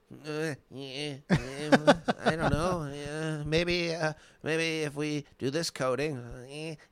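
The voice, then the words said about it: Imitates another person's voice. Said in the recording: “best Thomas Middleditch impression”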